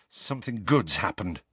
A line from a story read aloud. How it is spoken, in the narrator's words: mumbled Harry